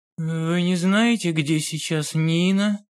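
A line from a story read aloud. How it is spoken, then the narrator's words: Gloomy question. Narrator (Russian): спросил Олег мрачным голосом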